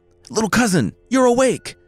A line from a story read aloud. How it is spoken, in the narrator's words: the youth cried